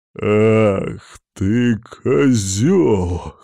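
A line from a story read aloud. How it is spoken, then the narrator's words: Hoarse. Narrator (Russian): хрипит он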